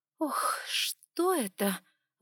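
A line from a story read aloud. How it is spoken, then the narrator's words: Gasp, burned by strong drink. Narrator (Russian): выдохнула, обжегшись неожиданно крепким напитком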